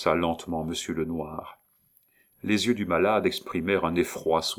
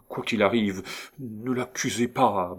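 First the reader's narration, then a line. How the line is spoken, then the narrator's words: Stammered. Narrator (French): balbutia-t-il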